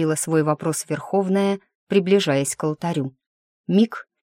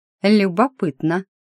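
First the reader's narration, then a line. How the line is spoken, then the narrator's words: Snort, female mentor. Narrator (Russian): хмыкнула наставница Велимира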